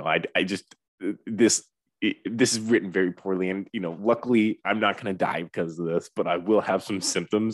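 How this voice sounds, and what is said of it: Mock-serious imitated voice. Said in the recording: “I'm going to do his little serious voice ... his Stanford voice ... he's doing his little voice”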